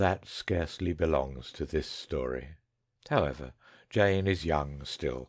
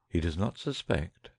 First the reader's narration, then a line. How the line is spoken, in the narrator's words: said the man, a little nervously